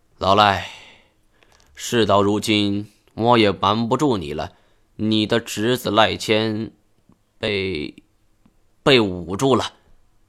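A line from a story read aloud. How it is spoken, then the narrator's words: Sighing. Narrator (Chinese): 叹了口气，说道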